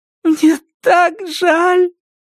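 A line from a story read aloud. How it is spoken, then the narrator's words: Speaking through tears. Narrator (Russian): проговорила сквозь слезы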